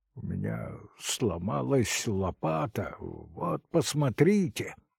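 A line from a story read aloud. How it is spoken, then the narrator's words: Muttering. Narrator (Russian): бормотал я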